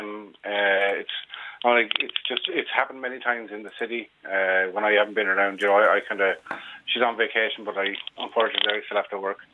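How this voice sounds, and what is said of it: Irish accent. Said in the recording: “you're from Ireland, and name and accent, obviously, immediately.”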